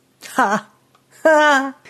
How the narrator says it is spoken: His laughter caused ear damage

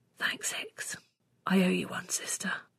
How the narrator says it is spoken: I let out a huge breath and whispered

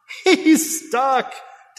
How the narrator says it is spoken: Daddy yelled over the crowd, laughing

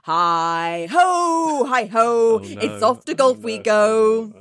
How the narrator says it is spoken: I loudly sang

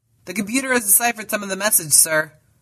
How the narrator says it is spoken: called out the communications officer

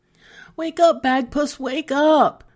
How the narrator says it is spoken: she begged

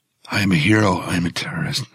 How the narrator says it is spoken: I whisper

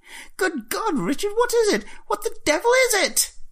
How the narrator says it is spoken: Jeremy shrieking behind him

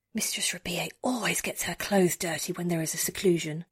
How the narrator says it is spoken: Emine whispers to me

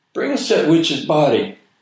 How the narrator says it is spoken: somebody yelled

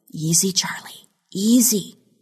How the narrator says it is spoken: she whispered

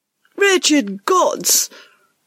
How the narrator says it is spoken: Ruskin shrieked at Peter, a young valet

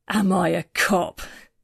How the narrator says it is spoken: He laughed

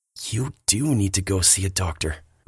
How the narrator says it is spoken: Billy whispers

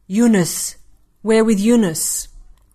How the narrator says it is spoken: One of the men spat

